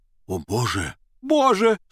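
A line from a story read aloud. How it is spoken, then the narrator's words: Sudden exclamation. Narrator (Russian): Вдруг иностранец воскликнул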